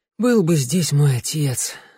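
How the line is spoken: Sighing. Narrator (Russian): вздохнул Тео

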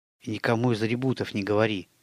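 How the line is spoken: Hurried whisper. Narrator (Russian): торопливо шепнул он

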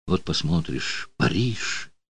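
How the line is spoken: Whisper. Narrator (Russian): шепнула

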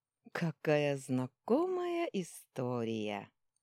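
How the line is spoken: Drawling. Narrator (Russian): протянула она

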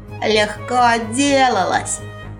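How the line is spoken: Snort. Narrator (Russian): фыркнул сын кузнеца

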